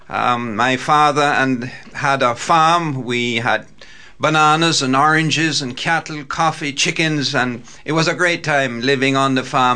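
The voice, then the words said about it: Jamaican accent. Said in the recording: “I was born in the island of Jamaica. ... It's an accent that can't be missed too easily.”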